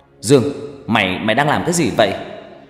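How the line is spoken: Hurried shout. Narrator (Vietnamese): vội lao đến quát

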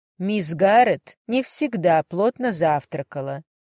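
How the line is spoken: Calm explanation. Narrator (Russian): пояснила Марта спокойно

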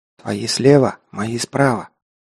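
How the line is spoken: Whisper, barely moving lips. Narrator (Russian): едва двигая губами, шепнул Герман

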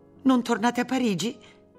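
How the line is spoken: Exclamation. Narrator (Italian): esclamò Martina

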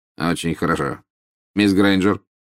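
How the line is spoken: Curt, clipped. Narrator (Russian): сказал отрывисто

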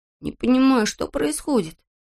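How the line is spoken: Muttering. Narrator (Russian): пробормотал он

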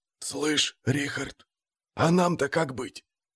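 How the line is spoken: Barely audible whistle-whisper. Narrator (Russian): даже не шепот, свист на грани слышимости

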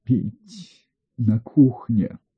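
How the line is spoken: Hoarse rasp. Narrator (Russian): она прохрипела

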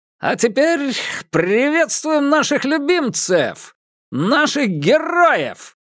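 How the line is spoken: Announcer's bellow. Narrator (Russian): заорал распорядитель

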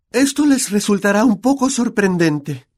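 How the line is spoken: Kind voice. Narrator (Spanish): dijo la profesora McGonagall con voz amable

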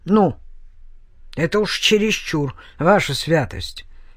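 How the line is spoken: Angry sleepy minstrel grumble. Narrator (Russian): сердито пробурчал менестрель, с трудом продирая глаза

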